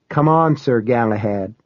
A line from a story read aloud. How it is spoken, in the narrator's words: she said